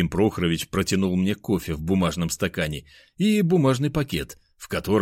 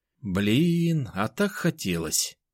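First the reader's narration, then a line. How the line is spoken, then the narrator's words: Drawling. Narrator (Russian): протянул Миша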